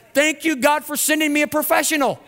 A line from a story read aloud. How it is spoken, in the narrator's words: The woman shouted